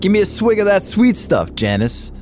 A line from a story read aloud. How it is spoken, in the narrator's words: the angel yelled